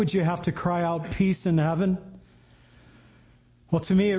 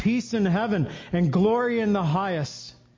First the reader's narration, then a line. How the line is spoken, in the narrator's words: The people also cried out